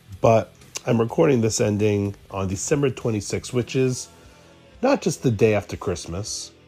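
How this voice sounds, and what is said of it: Voice sounds slightly sick with cold. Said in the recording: “I am recording this ending with a little bit of a cold, so excuse my voice.”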